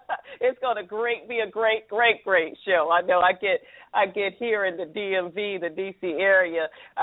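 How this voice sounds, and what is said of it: Southern American accent. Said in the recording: “Proud of my Southern accent.”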